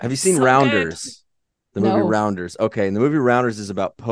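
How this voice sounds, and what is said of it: Usual voice. Nothing is said of it.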